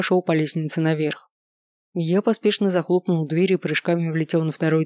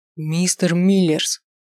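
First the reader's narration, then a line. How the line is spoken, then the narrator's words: Exclamation. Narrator (Russian): воскликнул я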